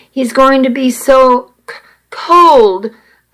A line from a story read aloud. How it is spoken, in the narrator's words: I stammered